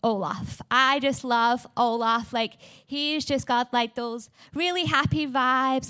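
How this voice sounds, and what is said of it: English accent. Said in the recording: “I am from England. I have this amazing, beautiful accent.”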